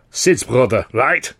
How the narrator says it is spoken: Weldon barked in Charlie's face

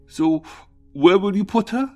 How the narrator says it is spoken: Through stuttering sobs, Tim stammered

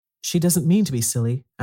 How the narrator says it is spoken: Anthea said gently

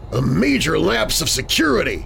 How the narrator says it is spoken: he snapped

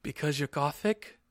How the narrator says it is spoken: Snap asked in a little afraid voice, because he was afraid

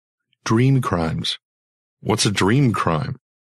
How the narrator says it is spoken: She sighed as if I were deliberately obtuse

